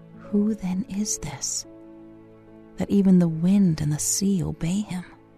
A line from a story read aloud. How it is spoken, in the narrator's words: a disciple whisper to another